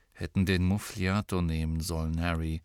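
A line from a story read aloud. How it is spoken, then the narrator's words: Added quietly. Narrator (German): fügte er leise hinzu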